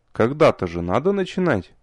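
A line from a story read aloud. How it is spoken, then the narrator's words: Snort. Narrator (Russian): хмыкнул я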